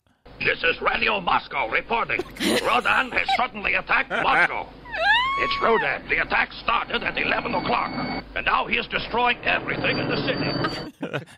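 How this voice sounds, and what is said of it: Exaggerated Russian accent. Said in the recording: “the accents they use for each city are hilarious ... Classic Russian accent.”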